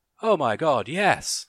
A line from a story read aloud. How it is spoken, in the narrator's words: the girl cried